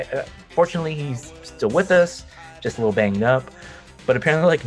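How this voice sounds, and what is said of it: Usual voice. Nothing is said of it.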